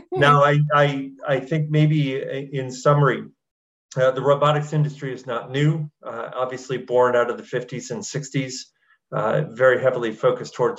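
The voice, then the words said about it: Slight twang accent. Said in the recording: “a slight twang”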